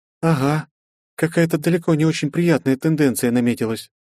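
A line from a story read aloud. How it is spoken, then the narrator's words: Sad smile. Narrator (Russian): грустно улыбнулась мне Вета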